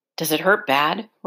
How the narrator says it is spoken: Roy asked

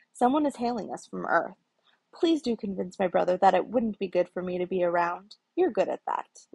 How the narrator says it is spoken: Loki snapped

